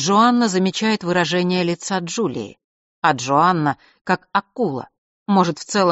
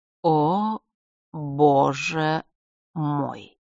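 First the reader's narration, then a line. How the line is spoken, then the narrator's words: Slow, joyfully satisfied exhale. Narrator (Russian): медленно выдыхает она, так, чтобы ее радостное удовлетворение успело накрыть Джулию с головой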